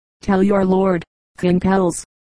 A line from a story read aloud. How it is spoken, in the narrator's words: said